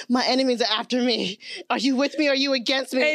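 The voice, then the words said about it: Put-on African accent. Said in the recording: “Every time I read that accent, I read it in an African accent”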